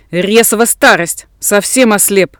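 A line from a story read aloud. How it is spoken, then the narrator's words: Grumbling to himself. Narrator (Russian): ворчал на себя опытный рисолов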